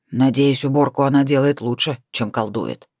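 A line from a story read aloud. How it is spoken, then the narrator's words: Grumbling mutter. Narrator (Russian): пробурчал волк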